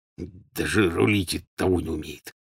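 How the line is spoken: Quiet mutter. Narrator (Russian): негромко пробормотал он

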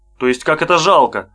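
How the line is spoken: Stern, frowning. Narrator (Russian): строго нахмурился Янакиев

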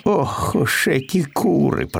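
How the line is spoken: Grumbled. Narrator (Russian): проворчал Пэтсон

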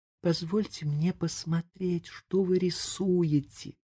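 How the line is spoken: Whisper. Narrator (Russian): прошептала она

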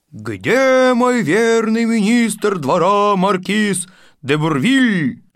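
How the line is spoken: Regal voice. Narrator (Russian): король Франции Петр Сергеевич Акуньков говорит королевским голосом

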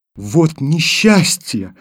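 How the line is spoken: Exclaimed. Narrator (Russian): воскликнула Таня

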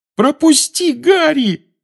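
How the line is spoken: Eager impatient shout. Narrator (Russian): закричал Невилл, которому не терпелось исправить свою ошибку

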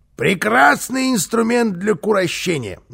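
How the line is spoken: Yelling. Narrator (Russian): завопил Карлсон

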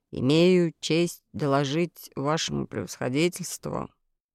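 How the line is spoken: Glum, dejected. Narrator (Russian): уныло начал он

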